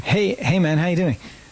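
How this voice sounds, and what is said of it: Put-on American accent. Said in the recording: “Believe it or not, that was my US accent.”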